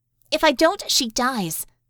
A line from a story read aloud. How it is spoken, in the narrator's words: Bella said harshly